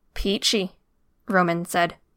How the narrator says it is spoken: his voice a growl

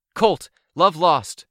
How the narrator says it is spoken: called out

